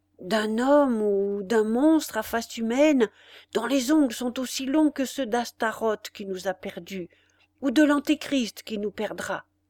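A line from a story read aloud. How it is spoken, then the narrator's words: Low voice. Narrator (French): poursuivit le concierge à voix basse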